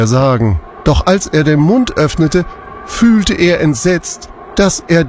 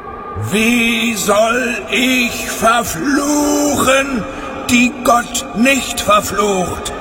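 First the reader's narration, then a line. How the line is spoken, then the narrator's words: Loud, far-carrying call. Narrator (German): rief er, und seine Stimme war weithin über das Land zu hören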